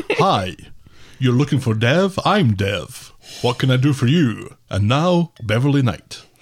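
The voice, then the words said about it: Mid-Atlantic drawl DJ voice as Dev. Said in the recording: “He's like a Mid-Atlantic drawl DJ”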